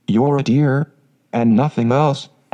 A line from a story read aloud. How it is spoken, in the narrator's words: answered Meg warmly